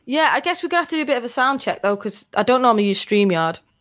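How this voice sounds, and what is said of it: Northern English accent. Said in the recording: “Have a great Northern accent”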